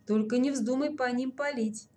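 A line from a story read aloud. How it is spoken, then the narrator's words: Quick warning. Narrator (Russian): быстро предупредил Ворожцов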